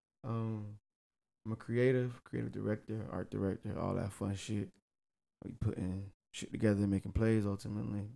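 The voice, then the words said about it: Southern US twang. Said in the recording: “Got a lot of southern slang in this twang”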